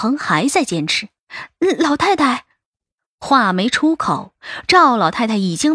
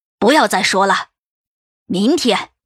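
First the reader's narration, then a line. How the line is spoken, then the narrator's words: Cold, angry. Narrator (Chinese): 赵老太太的火窜了上来，杜恒的固执让他火冒三丈……不禁冷声道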